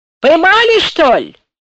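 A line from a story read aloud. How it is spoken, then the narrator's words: Young soldier shouting into distance. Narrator (Russian): молодой солдат крикнул куда-то вдаль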